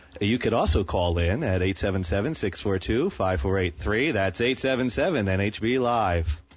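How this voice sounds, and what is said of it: Exaggerated radio announcer voice. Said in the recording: “I'm doing my very annoying radio announcer voice right now, aren't I?”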